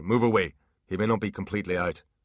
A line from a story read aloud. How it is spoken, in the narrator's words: said Butler sharply